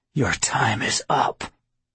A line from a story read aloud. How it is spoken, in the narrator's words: I whispered